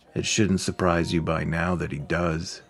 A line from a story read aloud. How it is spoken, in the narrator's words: Vera replied flatly